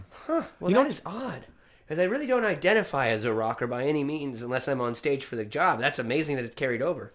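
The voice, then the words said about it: Slight Californian surfer accent. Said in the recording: “you've got a little bit of like a, I don't know where it comes from, but you've got a little bit of that California accent that just sounds a little tiny bit surfer”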